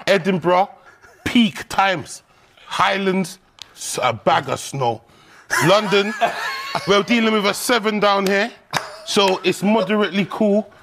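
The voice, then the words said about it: British accent. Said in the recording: “His voice and everything, like his voice, this British accent”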